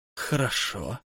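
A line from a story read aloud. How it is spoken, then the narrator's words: Muffled, hollow voice. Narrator (Russian): сказал он глухо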